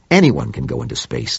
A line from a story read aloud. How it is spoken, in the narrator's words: snapped Claiborne